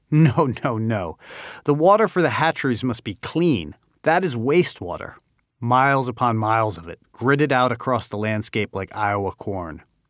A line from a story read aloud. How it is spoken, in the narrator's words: The American guide laughs